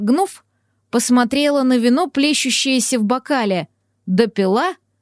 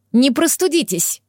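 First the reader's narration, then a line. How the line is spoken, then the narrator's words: Frightened bark. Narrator (Russian): рявкнула, испугавшись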